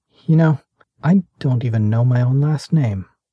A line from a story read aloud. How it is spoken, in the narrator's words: His voice faltered as he said